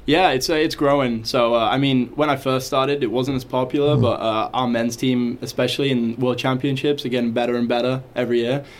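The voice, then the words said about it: English accent. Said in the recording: “they got a couple English guys over there ... your accent”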